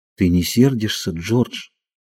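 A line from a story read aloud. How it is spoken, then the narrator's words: Timid question. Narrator (Russian): Ленни спросил робко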